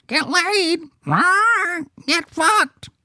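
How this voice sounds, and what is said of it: Imitates a talking bird. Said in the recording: “You should have taught that bird to say ... That's my bird impression.”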